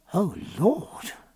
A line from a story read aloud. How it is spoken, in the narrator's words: said Sophie in a low tone of horror